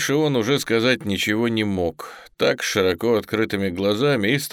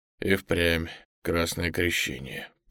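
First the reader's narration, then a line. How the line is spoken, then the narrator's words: Muttered. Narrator (Russian): пробормотал Крутов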